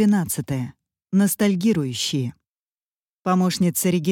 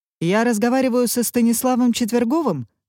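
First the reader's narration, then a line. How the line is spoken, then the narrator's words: Casual, superior actor's tone. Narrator (Russian): спросил он небрежным тоном, с нотками превосходства в своем столь изменчивом голосе лицедея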